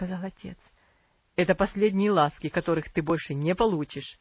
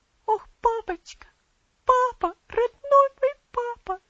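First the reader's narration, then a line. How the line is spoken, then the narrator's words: Sobbing. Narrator (Russian): всхлипывала она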